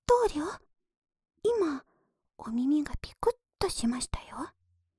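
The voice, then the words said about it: Soft close whispering voice. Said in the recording (Japanese): “私のささやき声が、くすぐったい。”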